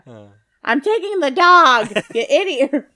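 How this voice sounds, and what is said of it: Poor impression of an actress. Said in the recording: “I can't do it either. ... before we start giving bad impressions of famous people”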